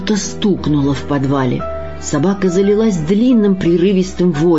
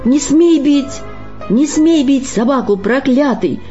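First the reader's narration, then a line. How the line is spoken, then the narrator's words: Frenzied shout. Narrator (Russian): закричал в исступлении Сергей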